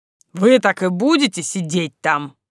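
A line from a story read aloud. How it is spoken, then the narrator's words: Angry question. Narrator (Russian): сердито спросил мой жених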